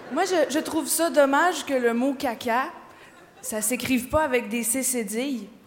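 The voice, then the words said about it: Québécois French accent. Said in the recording (French): “Moi, je viens du Québec. Je viens d'arriver, je suis québécoise. ... C'est un accent.”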